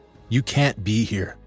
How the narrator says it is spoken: she says

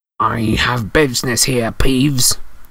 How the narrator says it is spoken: croaked Harry

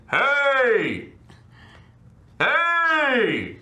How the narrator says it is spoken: I yell at them

